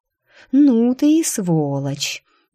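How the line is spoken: Admiring drawl. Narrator (Russian): Даже с некоторым восхищением протянула я

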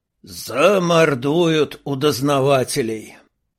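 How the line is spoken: Weary sigh. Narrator (Russian): В очередной раз вздохнул Толлока

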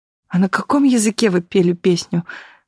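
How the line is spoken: Sobbing question. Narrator (Russian): всхлипывая, спросила Таисия

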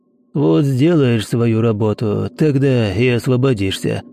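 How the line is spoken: Hoarse. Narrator (Russian): Хрипло проговорил один из спутников

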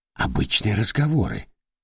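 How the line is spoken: Whispered. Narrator (Russian): прошептал Дорофеев

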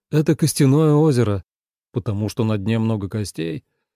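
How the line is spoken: Gloomy question. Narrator (Russian): мрачно спросил Лен

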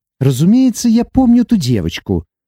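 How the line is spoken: Sharp. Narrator (Russian): резко проговорила Иви

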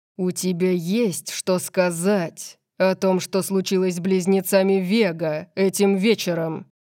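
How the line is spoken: Growled. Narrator (Russian): Он зарычал

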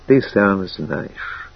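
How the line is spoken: Quiet. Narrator (Russian): тихо произнесла

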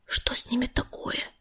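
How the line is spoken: Whisper. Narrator (Russian): прошептал он

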